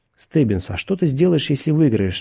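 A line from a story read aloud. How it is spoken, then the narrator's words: Plain. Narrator (Russian): спросил Макфрис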